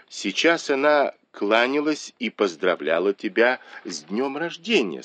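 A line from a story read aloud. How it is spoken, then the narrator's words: Plain. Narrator (Russian): сказала ему Сижень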